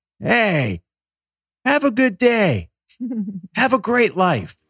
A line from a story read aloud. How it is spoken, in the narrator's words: this old man, an hour into this walk, yells